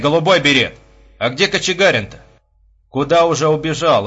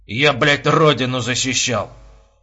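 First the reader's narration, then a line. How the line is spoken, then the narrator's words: Indistinct drunken mumble. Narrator (Russian): невнятно пробурчал почти что потерявший связь с внешним миром капитан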